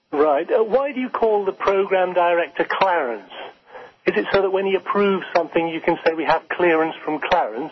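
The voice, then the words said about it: Phony strained put-on accent. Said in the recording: “Oh, not this phony accent again. ... This is your real voice. My God, you could go without a BM for 20 years and not sound as constipated as that.”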